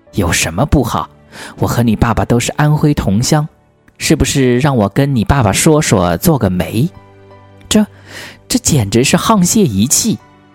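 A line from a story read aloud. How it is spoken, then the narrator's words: Laughing. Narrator (Chinese): 胡适还笑着说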